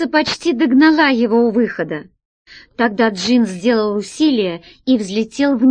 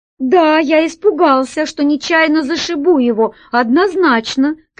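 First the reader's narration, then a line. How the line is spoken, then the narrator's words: Shouted reply. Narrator (Russian): кричал в ответ Джин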